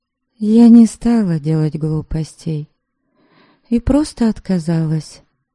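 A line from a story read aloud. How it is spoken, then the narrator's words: Soft voice. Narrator (Russian): мягко проговорила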